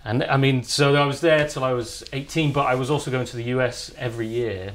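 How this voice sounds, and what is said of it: English Cotswolds accent. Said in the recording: “you don't have a Manchester accent. You have a Cotswolds accent. ... I still have hard vowels.”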